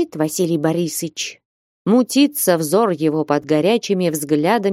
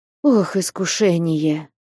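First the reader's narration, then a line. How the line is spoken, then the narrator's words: Sigh. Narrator (Russian): вздохнул Василий Борисович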